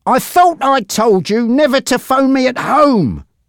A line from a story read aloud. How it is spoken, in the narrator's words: shouted, angrily